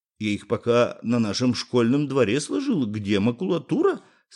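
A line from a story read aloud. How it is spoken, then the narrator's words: Plain. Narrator (Russian): сказал Юра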